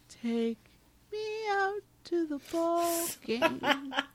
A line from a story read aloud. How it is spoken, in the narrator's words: He sadly sings